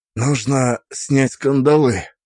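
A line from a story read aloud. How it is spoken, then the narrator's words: Slightly hoarse voice. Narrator (Russian): сказал я чуть хрипло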